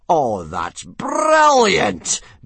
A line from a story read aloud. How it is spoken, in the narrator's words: bellowed Gobber